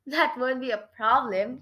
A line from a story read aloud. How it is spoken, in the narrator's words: Creepola chuckled